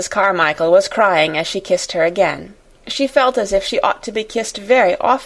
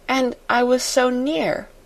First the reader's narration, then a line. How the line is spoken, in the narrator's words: murmured Sarah